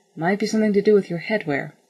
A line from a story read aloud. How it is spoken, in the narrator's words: said Mal dryly